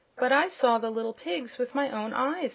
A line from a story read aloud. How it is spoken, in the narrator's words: exclaimed Zeb